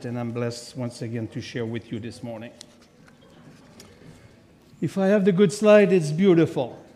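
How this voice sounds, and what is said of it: French Québécois accent. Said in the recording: “I'm from Quebec, so of course I have a French accent”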